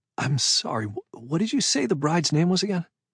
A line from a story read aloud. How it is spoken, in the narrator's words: my voice cracked when I said